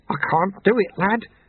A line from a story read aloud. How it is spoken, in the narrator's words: the sweeper mumbled